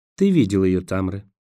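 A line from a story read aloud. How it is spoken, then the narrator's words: Soft, surprised remark. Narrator (Russian): мягко заметила Роэн, удивленная чувством вины послушника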